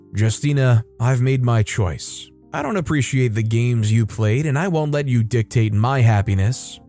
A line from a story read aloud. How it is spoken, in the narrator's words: Jude, unfazed by her presence, looked at her calmly and replied